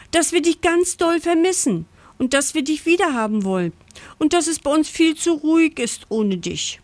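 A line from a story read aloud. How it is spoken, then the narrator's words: Breathless gasping. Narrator (German): japst Pucki atemlos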